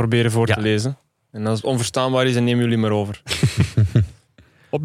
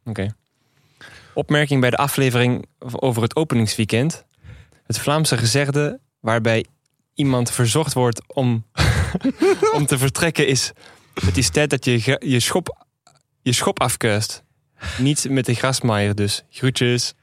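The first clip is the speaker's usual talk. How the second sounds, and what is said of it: Put-on Netherlands Dutch accent. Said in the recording (Dutch): “Zal ik het in Nederlands accent doen? ... De R'en waren af en toe goed.”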